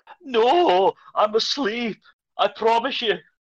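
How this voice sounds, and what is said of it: Scottish accent character voice. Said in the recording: “does the best Duncan voice ... a proper Scottish accent”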